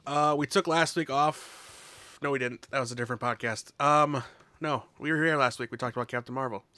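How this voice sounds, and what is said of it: Hoarse, worn-out voice. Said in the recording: “apologize for my voice. I'm just getting over a cold and losing my voice”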